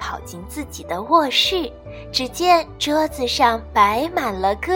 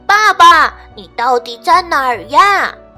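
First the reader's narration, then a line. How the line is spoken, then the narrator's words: Shouting. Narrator (Chinese): 比尔大声喊道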